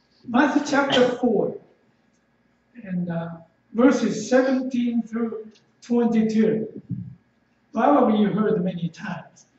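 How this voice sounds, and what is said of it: Japanese-accented English. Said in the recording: “my southern Japanese accent in English”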